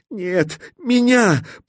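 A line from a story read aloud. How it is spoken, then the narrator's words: Sobbing bird. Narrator (Russian): всхлипнул скворец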